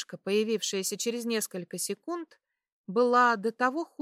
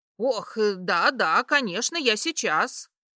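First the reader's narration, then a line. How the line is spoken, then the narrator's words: Rapid chatter, woman. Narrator (Russian): зачастила тетка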